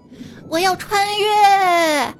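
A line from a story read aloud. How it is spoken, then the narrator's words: Shouting. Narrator (Chinese): 我大喊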